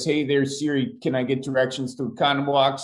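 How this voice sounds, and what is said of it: Exaggerated Midwest American accent. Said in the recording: “in the Midwest, allegedly we got an accent ... Midwest Siri translator”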